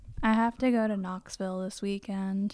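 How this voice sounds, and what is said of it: NPR-style radio voice. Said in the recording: “using my NPR voice”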